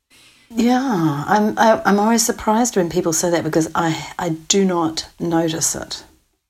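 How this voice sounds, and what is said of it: Accent different from the interviewer's. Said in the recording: “you have a different accent to me”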